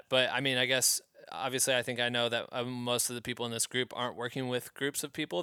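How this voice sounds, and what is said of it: Hoarse, voice giving out. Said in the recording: “as I talk more and more, I'm like losing my voice”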